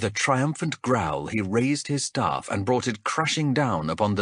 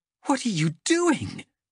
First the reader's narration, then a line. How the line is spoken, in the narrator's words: gasped Chev, appalled at such carelessness